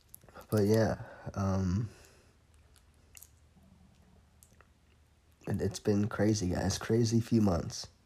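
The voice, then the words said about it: Slightly raspy voice. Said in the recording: “My throat is a little raspy, I know. ... I'm still recovering from being sick.”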